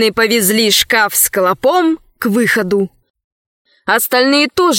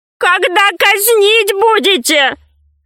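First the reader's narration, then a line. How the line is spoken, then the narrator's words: Shout. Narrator (Russian): крикнул вслед вкушицам мудрец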